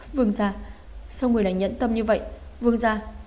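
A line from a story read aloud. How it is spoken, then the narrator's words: Stunned, tearful pleading. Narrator (Vietnamese): Vân Vương Phi ngây ngốc cả người, phản ứng lại khóc lóc cầu xin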